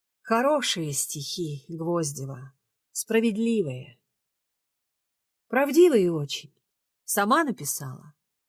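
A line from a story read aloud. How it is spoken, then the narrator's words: Calm, even, clear voice. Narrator (Russian): словно очнувшись, ровным, спокойным и четким голосом сказала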